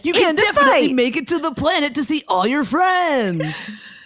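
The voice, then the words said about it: Radio DJ voice. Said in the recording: “I'm going to retire radio voice.”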